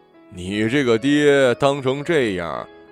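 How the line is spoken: Laughing loudly, sighing. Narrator (Chinese): 朋友笑得更大声了，叹道

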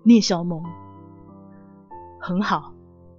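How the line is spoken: Hoarse after long silence. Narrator (Chinese): 他沉默了许久，声音沙哑

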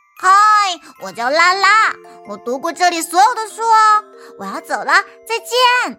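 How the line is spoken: Loud shout. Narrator (Chinese): 在图书馆里，拉拉也会大声的喊

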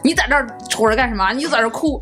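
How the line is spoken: Angry. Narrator (Chinese): 我爸 怒气冲冲地 他就说

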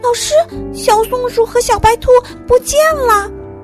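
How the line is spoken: Sudden cry. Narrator (Chinese): 鼹鼠嘟嘟突然叫了起来

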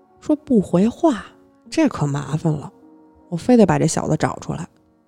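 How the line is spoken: Muttering. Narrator (Chinese): 那个武士嘟囔

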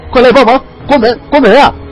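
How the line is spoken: Shouting. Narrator (Chinese): 王刚 边喊

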